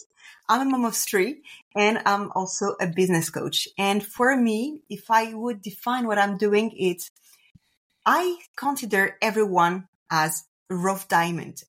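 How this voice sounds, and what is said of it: French accent. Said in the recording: “I'm French, so apologize if I do any kind of mistakes or for my accent.”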